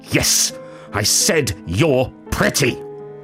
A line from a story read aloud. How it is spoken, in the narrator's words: the woman shouted